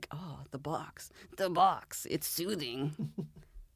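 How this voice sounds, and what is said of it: Poor imitation of a game character. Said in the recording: “That was my terrible impression of Snake”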